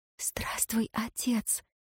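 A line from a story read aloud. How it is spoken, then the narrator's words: Whisper. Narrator (Russian): прошептала Ирейн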